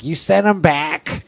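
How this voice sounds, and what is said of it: Imitates his wife's voice. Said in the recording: “That's my imitation of my wife. ... that's kind of how you sounded in my filter.”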